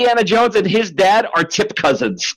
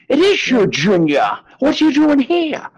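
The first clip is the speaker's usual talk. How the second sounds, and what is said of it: Imitates another person's voice. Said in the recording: “Sean Connery ... Good impression, man.”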